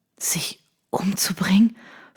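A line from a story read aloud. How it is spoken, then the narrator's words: Stunned whisper. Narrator (German): flüsterte fassungslos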